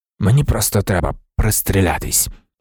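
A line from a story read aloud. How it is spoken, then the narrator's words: Muttering. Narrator (Ukrainian): пробурмотів данець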